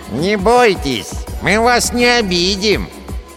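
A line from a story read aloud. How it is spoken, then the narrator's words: Nasal dwarf voice. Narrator (Russian): Прогнусавил второй карлик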